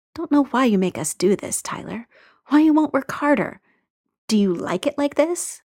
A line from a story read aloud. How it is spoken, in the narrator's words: a regretful voice murmuring